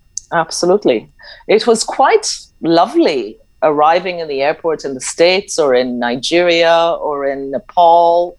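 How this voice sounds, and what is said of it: Odd, hard-to-place accent. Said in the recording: “the weird, dodgy accent you can't place where she's that, from”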